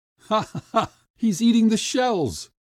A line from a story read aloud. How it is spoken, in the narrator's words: laughed the crowd